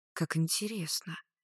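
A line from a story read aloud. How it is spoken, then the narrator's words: Mutter. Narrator (Russian): пробормотала Клариса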